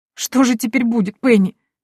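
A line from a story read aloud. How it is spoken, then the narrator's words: Cook sobbing. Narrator (Russian): всхлипнула повариха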